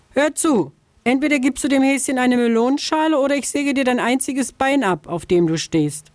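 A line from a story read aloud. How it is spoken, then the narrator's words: Calling from afar. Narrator (German): Schon von Weitem rief sie der Vogelscheuche zu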